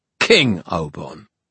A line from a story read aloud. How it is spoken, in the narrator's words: Obon snapped